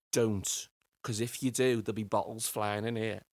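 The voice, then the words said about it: Broad Scouse accent. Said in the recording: “in the broadest Scouse accent”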